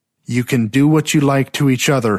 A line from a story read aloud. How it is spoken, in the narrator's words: he shouted